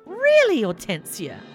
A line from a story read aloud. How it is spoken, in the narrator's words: Monica scoffed